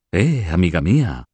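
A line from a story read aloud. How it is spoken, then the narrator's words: Laughing exclamation. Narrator (Spanish): exclamó Luis entre risas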